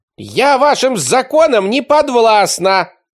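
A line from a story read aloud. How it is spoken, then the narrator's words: Scream. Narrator (Russian): завопила она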